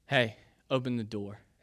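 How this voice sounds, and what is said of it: Stern dad voice. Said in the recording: “I hear my dad's voice come through... that dad voice”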